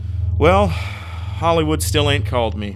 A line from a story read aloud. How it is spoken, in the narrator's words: Pat sighed